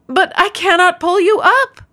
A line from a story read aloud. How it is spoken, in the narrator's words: the man cried